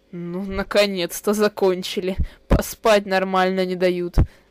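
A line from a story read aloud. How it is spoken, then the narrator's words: Menacing deep bass. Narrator (Russian): грозно пробасил холодильник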